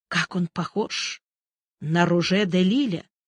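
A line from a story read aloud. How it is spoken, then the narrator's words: Whisper to neighbor. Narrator (Russian): Ларин прошептал соседу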